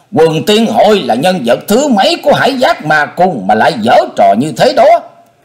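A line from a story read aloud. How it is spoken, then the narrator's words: Scream. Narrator (Vietnamese): Linh Châu đạo nhân thét lên một tiếng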